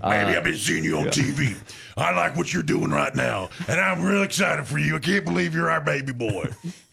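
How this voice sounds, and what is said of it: Imitates another person's voice. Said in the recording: “In his Coach O voice? I like your Coach O, by the way.”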